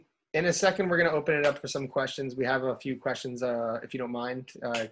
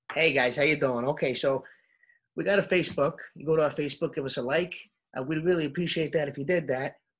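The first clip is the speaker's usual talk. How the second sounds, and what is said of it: Put-on New York accent. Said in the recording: “Do it in your New York accent ... Oh, do it in the New York accent?”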